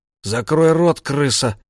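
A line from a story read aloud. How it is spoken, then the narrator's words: Forced out, strained. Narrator (Russian): выдавил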